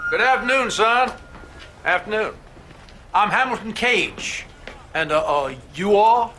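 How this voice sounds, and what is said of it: Southern accent. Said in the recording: “he started coming out with that southern accent”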